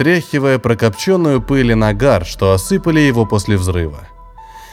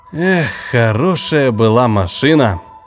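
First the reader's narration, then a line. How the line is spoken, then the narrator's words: Sighing. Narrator (Russian): вздохнул Дзарт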